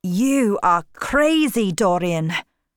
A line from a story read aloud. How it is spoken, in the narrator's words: shouted Campbell